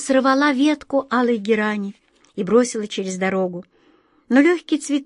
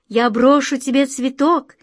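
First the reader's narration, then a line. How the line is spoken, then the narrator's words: Girl shouting. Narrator (Russian): крикнула девушка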